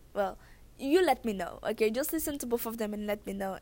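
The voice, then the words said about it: Very thick foreign accent. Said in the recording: “my very thick accent”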